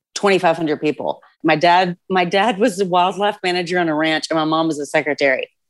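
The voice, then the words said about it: Texas drawl. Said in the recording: “drawl, but ... grew up in a small town in Texas”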